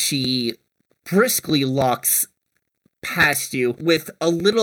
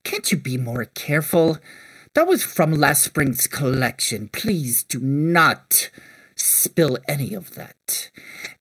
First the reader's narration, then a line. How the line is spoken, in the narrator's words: the woman scoff with